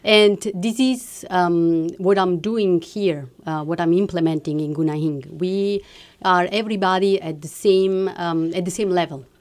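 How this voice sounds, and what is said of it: Speaks English with an accent. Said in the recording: “I'm sorry for my accent.”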